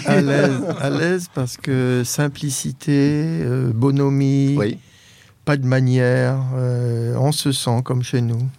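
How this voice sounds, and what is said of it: Slight French accent. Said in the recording (French): “vous avez un petit accent français”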